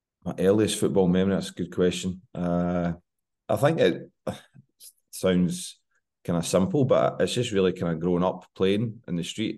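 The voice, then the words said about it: Scottish accent, slightly congested voice. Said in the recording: “I've got a bit of a cold, so hopefully with my cold and Scottish accent,”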